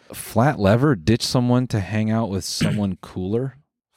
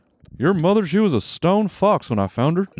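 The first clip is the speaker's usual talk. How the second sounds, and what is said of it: Hank Hill impression. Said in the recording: “Hank Hill shit. ... That's a good impression.”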